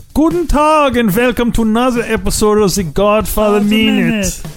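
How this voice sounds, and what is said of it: Outrageous put-on accent. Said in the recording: “We should do the whole episode with these outrageous accents.”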